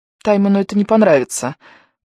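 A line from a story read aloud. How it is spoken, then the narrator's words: Timid babble. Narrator (Russian): пролепетала Дженни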